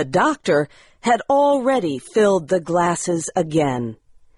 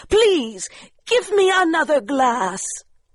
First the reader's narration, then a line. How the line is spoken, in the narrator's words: she cried